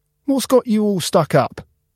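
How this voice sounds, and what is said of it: Chirpy character voice. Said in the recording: “in a chirpy voice.”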